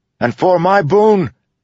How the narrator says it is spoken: Kaladin shouted

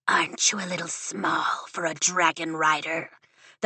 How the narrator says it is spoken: The Venon hisses

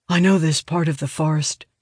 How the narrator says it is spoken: says softly

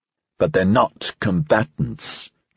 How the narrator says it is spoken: Dreyfus said testily

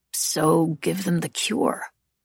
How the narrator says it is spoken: Ansel said quietly

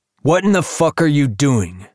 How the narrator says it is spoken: Ace shouts at the man

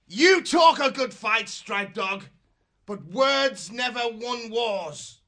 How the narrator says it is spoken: he shouted out contemptuously

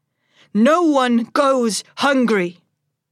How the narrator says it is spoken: I shout

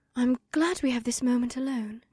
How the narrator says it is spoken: my first wife said in a quiet, warm voice

